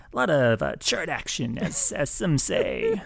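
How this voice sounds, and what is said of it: Radio announcer voice. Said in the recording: “There's my chart radio voice.”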